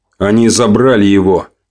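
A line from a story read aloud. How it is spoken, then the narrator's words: Grim. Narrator (Russian): мрачно констатировал я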